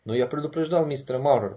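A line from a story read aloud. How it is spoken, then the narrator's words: Grumbled. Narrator (Russian): проворчал Сэгги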